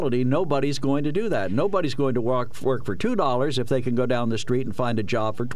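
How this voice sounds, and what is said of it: Usual voice. Nothing is said of it.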